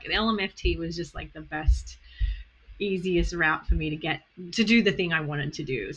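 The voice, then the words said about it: Australian accent. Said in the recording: “My accent is Australian.”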